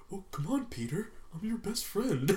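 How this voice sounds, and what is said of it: Imitates another person's voice. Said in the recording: “this one guy does this impression of Dane DeHaan ... he always talks like that”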